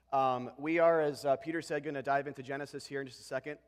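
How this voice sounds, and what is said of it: Unwell, cold-affected speaking voice. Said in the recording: “forgive my voice today. I'm getting over a little bit of a cold”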